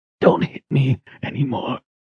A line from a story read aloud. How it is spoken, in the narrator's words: he whispered